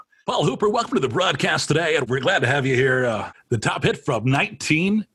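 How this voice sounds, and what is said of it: Radio announcer voice. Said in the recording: “he has this preloaded radio voice. So whenever he's asking me questions, I feel like it is a proper radio interview.”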